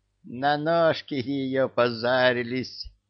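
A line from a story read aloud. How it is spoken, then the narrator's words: Laughing. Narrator (Russian): засмеялся Чебурашка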